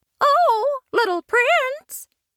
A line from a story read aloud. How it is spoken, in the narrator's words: called out, trying to be as sweet as a fairy